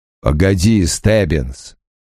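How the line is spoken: Growled. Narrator (Russian): прорычал Крэмер

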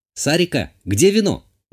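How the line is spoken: Shouting. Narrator (Russian): крикнула я

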